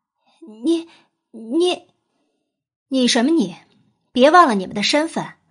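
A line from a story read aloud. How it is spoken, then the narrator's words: Stuttering. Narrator (Chinese): 夏雨和冬雪终于结结巴巴说不出话来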